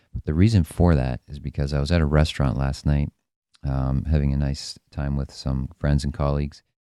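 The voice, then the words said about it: Voice sounds a little off. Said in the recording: “my voice is a little off today ... I had to yell just to speak to the person next to me for the entire night”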